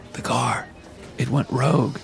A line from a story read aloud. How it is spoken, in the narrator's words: I muttered